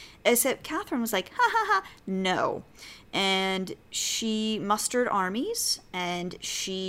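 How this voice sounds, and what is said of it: Usual voice. Nothing is said of it.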